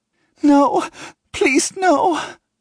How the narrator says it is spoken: she cries on the end of the line

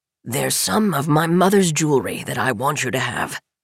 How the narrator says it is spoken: Mint says, his voice broken and gravelly

